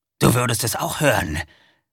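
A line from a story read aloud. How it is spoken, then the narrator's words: Werewolf growling. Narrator (German): knurrte der Werwolf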